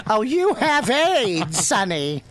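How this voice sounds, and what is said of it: Old grandmother character voice. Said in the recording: “in a grandma voice”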